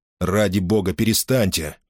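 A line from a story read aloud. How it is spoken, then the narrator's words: Grumbling. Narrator (Russian): проворчал Гордон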